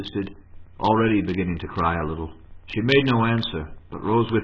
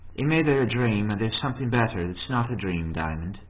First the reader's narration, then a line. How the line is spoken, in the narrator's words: said, in a rather sorrowful tone, he thought